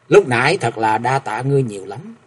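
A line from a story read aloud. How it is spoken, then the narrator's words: Quiet voice. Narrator (Vietnamese): Thượng Quan Phụng Châu nhỏ giọng nói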